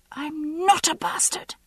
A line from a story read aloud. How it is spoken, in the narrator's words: shrieked